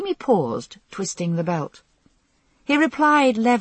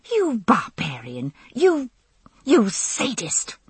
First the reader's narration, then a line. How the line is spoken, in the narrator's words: I hissed furiously